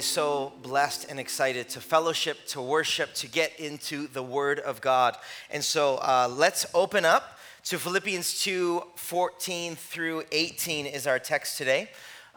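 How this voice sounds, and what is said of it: Raspy, strained voice. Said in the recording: “my voice is like gone. So it's like this raspy thing.”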